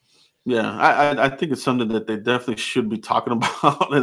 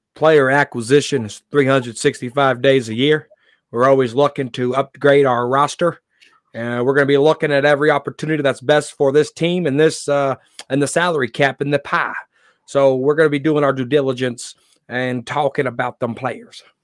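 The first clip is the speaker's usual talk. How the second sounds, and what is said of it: Impression of Stephen Jones. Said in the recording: “I'm going to sound like Stephen Jones here. ... That's a great impression.”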